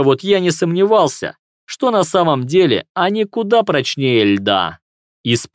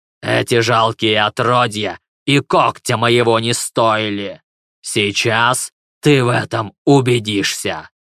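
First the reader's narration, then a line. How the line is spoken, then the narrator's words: Deep guttural growl. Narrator (Russian): Он снова утробно зарычал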